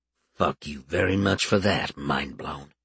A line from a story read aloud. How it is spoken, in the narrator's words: he muttered